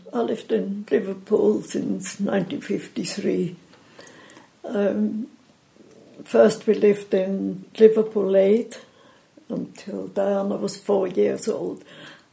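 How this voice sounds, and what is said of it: Swiss accent in English. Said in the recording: “that is not a Liverpool accent that you have ... where that accent is from ... I come from Switzerland”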